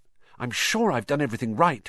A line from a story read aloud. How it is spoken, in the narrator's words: said Hermione, nervously